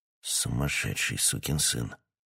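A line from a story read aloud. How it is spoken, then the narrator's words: King muttering. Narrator (Russian): пробормотал король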